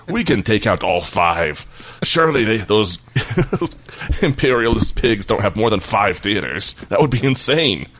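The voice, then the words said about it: Poorly done put-on Asian accent. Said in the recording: “that's not a very good Asian accent you're doing there”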